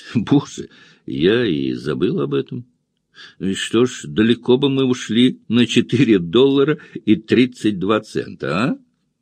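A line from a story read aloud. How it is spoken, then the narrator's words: Laughing. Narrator (Russian): Энн засмеялась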